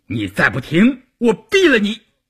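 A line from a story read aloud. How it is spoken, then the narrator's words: Roaring. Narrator (Chinese): 关山林吼道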